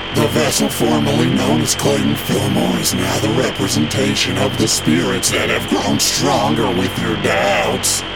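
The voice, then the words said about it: Weird, unnatural voice. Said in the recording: “the speaker with the weird voice”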